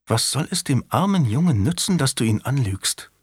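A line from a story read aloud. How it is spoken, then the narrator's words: Whispered in ear. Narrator (German): Marguerite flüsterte ihm ins Ohr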